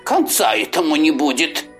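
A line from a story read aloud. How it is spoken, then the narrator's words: Grumbling turtle. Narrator (Russian): проворчала черепаха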